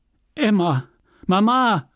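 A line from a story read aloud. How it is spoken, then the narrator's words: Conciliatory call. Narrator (German): rief Charles, um Versöhnung bemüht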